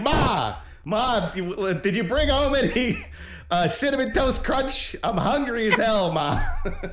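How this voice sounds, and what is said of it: Put-on New Jersey accent. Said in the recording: “the little New Jersey accent going ... Their accent should have gotten more Jersey”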